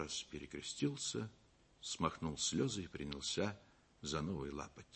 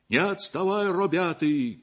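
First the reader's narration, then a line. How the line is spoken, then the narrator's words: Group shouting. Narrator (Russian): кричали они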